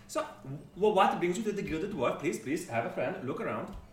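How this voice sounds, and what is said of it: Swedish-Scottish blend character accent, excitable. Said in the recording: “this is a northern Scarland accent ... It's like Swedish, Scottish ... Amalgamation of Swedish chef ... Ruby's voice is like this, very, very exciting.”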